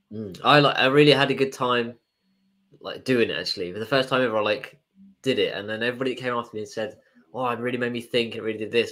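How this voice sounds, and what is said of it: Congested, deep bassy voice. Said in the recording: “I'm just a bit full of cold ... I probably sound like I got my like late night radio voice on. Very bassy and nice, smooth, hopefully.”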